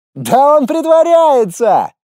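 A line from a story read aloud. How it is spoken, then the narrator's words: Teenager yelling. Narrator (Russian): завопил еще один подросток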